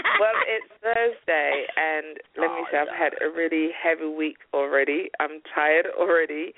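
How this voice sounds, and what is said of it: Speaks with a pleasant accent. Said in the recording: “it sounds nice with that accent, even nice”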